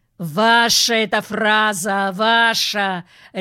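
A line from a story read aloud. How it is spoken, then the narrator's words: Barked. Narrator (Russian): рявкнул майор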